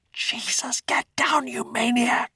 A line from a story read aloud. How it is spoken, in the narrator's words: Hans whispered